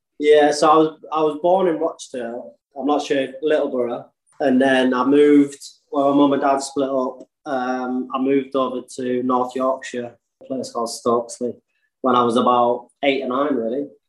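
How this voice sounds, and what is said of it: Northern English accent. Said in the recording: “My accent's kind of stuck with me a little bit”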